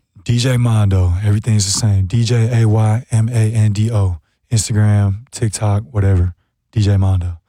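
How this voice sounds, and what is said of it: Raspy, partly lost voice. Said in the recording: “My voice is still gone. It's a little raspy.”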